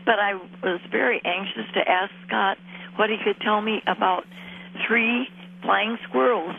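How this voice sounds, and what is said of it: Strained, failing voice. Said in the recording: “my voice is giving out”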